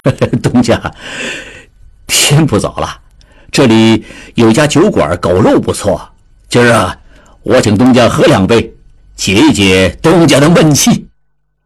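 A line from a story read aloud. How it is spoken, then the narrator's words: Laughing. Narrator (Chinese): 李德龄 笑道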